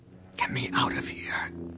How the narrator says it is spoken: she whispered to Luke

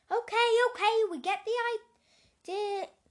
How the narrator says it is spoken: shouted Buster

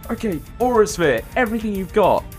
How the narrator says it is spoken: Chuck shouts

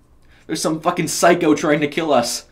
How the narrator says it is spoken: she shouted

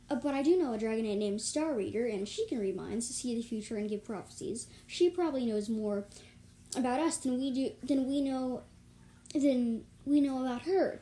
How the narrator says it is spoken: Drench exclaimed

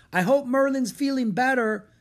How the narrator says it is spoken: shouted Annie

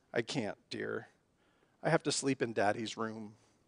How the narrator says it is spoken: Smiling, the mother gave him a warm, reassuring hug and said tenderly

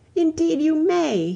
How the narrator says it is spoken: he cried

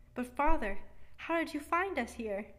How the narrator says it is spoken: cried little Louis at last

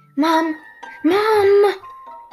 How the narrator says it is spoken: shrieked Snappy

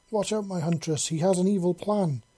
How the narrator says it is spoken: she exclaimed

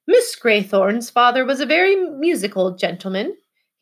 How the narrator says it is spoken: he said in his butler voice

